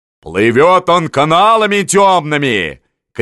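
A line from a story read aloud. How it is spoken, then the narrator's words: Shouted. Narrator (Russian): крикнул ему Волынский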